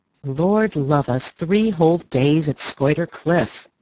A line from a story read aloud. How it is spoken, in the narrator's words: Beaufort was saying in his loud, sneering voice